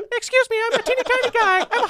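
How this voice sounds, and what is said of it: High-pitched character voice. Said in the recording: “high voice.”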